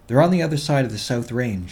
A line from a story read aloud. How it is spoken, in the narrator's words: said quickly